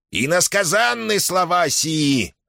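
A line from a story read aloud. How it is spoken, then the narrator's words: Shaman's heated shout. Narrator (Russian): запальчиво выкрикнул шаман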